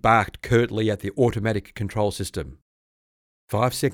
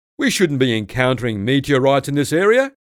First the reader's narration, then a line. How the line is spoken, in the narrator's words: he exclaimed